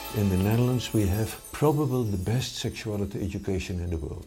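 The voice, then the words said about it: Dutch accent. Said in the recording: “The gorgeous accent you're about to hear is from the Netherlands.”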